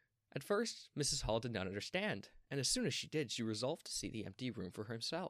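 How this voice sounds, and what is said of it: Usual voice. Nothing is said of it.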